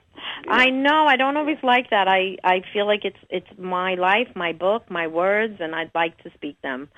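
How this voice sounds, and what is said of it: Brooklyn or New York accent. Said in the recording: “you have this charming... Brooklyn or New York accent”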